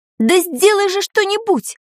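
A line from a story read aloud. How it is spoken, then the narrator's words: Woman shouting. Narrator (Russian): крикнула она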